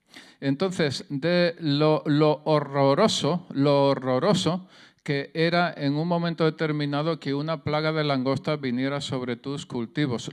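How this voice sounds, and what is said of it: Southern Spanish accent. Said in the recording (Spanish): “soy del sur de España, el acento se me nota el, el deje es maravilloso”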